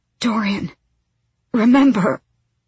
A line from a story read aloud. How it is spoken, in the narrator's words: she gasped out